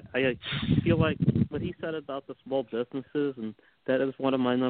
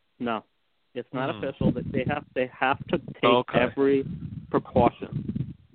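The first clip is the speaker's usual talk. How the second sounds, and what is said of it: New York accent. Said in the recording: “sounded like Gary Bettman there ... with the New York accent going”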